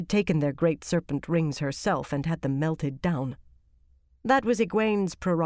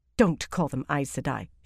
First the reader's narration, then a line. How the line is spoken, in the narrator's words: she snapped